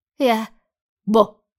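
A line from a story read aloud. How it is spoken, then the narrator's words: Shouting. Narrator (Russian): крикнул он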